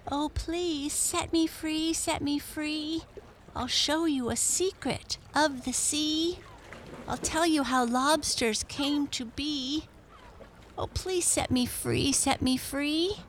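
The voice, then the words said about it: Strange little character voice. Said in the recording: “strange little voice”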